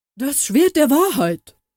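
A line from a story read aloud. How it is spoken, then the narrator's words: Horrified roar. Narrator (German): brüllte voller Entsetzen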